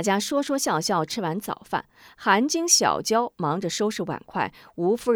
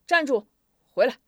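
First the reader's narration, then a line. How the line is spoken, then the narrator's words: Deep-voiced call from behind. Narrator (Chinese): 师傅在背后沉声喊道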